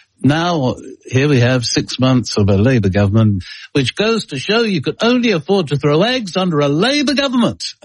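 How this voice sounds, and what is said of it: Harold Wilson impression. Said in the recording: “I can do it with the Harold Wilson impersonation”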